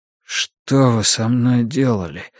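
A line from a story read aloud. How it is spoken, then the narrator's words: Hoarse interruption. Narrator (Russian): хрипло перебил Йона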